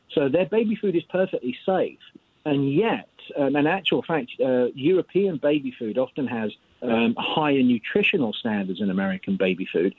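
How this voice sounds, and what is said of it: British accent. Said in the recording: “the accent, I don't put this on to impress the kids. I'm actually from Europe, from the UK.”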